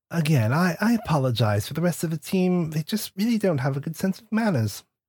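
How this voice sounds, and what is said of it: Put-on English accent. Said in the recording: “Your accent sounded familiar. I personally can't do an English accent consistently”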